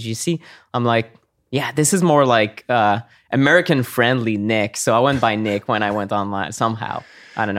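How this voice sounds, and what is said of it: Mild Québécois French accent in English. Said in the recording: “you're from Montreal, Quebec, Canada ... There's a little bit of George St. Pierre in your voice ... he's horrible at the English accent. So I hope I'm a little bit better ... You're better ... Slightly.”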